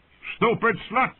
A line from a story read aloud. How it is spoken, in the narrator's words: the fat man shouted up